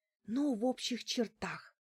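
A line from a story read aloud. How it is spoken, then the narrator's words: Whispered. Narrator (Russian): прошептала я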